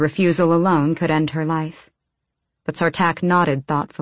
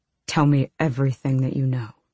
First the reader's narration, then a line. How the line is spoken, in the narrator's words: He said quietly